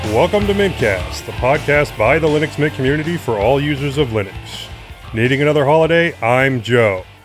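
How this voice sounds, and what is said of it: Announcer-style radio voice. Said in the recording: “Put on my radio voice.”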